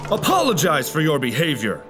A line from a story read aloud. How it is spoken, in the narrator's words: the king shouted